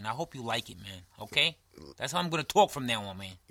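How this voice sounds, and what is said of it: New York accent. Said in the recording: “This is my New York accent, man.”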